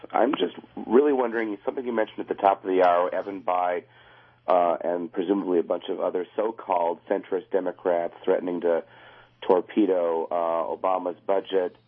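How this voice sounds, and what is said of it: Hoarse voice from laryngitis. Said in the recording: “my laryngitis.”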